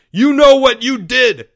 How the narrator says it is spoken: yelled Leo

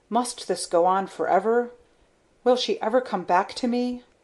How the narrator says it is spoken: His voice choked off

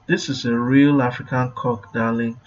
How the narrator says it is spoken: purred

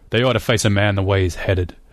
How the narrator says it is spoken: Donegal grunted

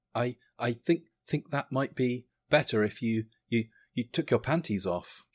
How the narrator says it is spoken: stammered

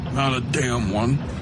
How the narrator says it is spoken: Coakley muttered

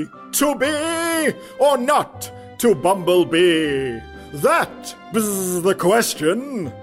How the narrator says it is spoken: bellowing loudly

